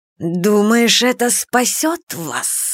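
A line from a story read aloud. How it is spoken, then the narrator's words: Hissing snake. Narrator (Russian): прошипела змея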